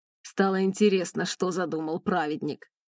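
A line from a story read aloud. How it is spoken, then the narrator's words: Wry snort. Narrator (Russian): хмыкнул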